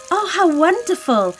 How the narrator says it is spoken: cried the princess

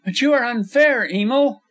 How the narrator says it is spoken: cried Chris Farrington, his sensitive face flushed and hurt

